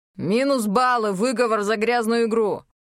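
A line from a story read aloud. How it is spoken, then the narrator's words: Barking. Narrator (Russian): рявкнул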